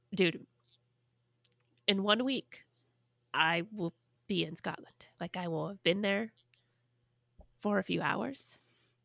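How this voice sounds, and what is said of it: Congested, stuffy voice. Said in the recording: “I have a little bit of a cold, which you might be able to tell ... I sound pretty congested”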